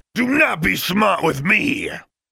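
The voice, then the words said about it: Angry roaring shout. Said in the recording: “voice rose to a roar”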